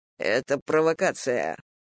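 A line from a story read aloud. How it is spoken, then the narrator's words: Muttering. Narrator (Russian): бормотал он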